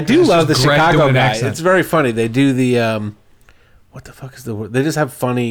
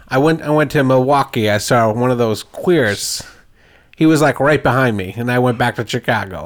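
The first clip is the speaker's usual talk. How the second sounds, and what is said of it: Put-on Chicago accent. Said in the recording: “Can you do a Chicago accent?”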